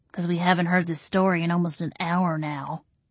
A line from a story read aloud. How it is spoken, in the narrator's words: Arlene muttered